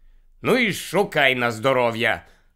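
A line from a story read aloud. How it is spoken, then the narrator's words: Irritated grumble. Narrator (Ukrainian): роздратовано буркнув Гаррі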